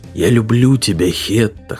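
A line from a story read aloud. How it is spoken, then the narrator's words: Hoarse, embarrassed. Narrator (Russian): хрипло проговорил он, чувствуя себя полным идиотом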